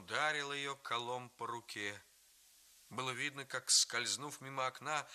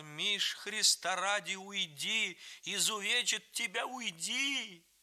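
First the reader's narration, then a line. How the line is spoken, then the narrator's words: Grandmother shouting. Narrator (Russian): Бабушка закричала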